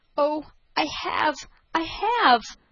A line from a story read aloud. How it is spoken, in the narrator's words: cried the prince with a shudder